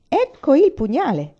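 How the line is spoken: Shouted. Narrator (Italian): gridò Amor

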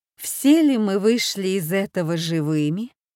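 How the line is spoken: Solemn question. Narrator (Russian): спросила торжественно

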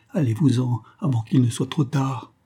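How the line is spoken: Murmured. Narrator (French): murmura-t-elle

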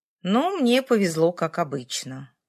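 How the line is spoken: Grumbling. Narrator (Russian): пробурчал я

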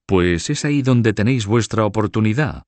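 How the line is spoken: Exclaimed. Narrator (Spanish): exclamó

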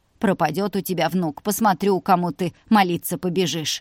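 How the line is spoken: Snapping retort. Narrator (Russian): огрызнулась тетя Надя

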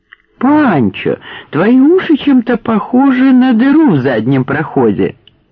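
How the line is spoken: Cheerful declaration. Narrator (Russian): радостно заявил Дик

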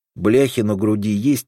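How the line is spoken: Plain. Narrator (Russian): спросил Крайнев

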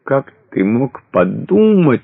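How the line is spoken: Sobbing. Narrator (Russian): разрыдалась

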